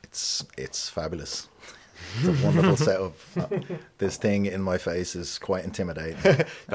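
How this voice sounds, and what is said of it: Authentic Dublin accent, voice with gravitas. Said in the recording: “He's got a great voice as well ... He's got a real gravitas in his voice, and he's also got a very authentic Dublin accent”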